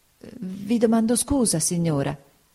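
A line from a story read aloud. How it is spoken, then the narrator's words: Stammered. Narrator (Italian): balbettò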